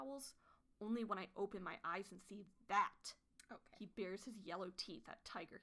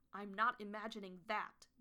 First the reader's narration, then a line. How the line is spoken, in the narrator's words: Goosefeather spat